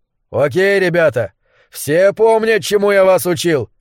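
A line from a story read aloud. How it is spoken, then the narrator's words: Yell. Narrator (Russian): заорал он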